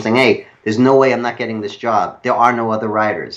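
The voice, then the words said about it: Exaggerated New York accent. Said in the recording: “his New York accent was even worse than mine, which brought out my bad New York accent ... he's talking like this, and I'm talking like this”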